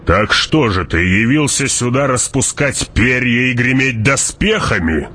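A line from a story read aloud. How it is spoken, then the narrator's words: Growl. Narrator (Russian): прорычал барон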